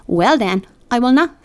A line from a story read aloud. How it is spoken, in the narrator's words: said Catherine